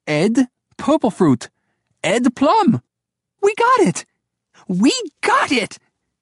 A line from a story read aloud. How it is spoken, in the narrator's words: Grace cried